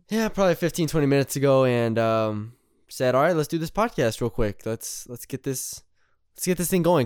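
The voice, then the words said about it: Raspy, tired late-night voice. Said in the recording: “You had a different kind of cadence there ... I have that 1 a.m. cadence ... That's the cadence I have in my voice right now ... a little raspy”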